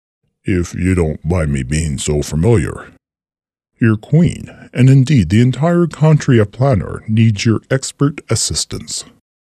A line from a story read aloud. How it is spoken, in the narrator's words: he continued in a low, commanding tone